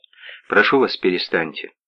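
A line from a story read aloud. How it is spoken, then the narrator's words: Calm. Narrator (Russian): спокойно сказал Север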